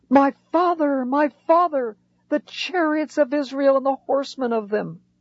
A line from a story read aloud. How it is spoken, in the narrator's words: Elisha cried out